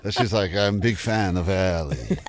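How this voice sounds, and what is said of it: Put-on unidentified foreign accent. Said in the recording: “She was Russian, or are you just doing your own? ... Do you know what accent you're doing?”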